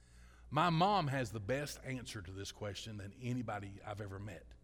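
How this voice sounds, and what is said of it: Southern US accent. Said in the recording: “they hear my accent ... I'm from Kentucky. I'm from Louisiana.”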